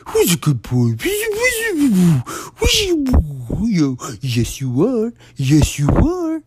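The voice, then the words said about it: Baby voice talking to a dog. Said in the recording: “They bring this weird fucking baby face. Baby voice. To the dog.”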